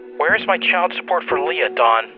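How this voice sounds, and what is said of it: Angry voice. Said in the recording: “Don can hear the anger in her voice.”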